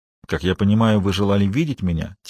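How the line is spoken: Quiet question. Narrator (Russian): тихо спросил

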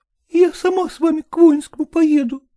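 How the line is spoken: Tearful, barely audible. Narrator (Russian): еле выговорила сквозь слезы Лукерья Ивановна

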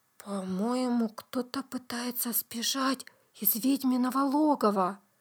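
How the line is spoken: Whisper. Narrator (Russian): прошептал

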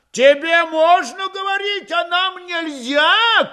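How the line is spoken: Furious shout. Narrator (Russian): крикнула она, сверкающими от ярости глазами

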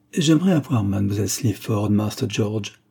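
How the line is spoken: Insinuating tone. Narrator (French): dit Jeffson d'un ton insinuant

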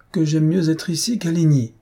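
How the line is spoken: Exclaimed with conviction. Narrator (French): s'écria Antoinette avec conviction

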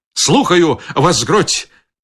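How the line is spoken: Shout. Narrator (Belarusian): крыкнуў фельдфебель

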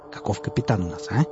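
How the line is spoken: Loud stage whisper. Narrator (Russian): прошептал он на всю комнату

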